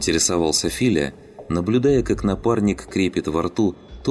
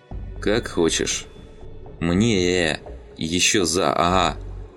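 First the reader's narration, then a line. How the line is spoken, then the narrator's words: Stumbling, then strange altered voice. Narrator (Russian): Олова запнулся, сглотнул, почувствовав, как наны начали проникать в связки, и продолжил уже другим, чужим голосом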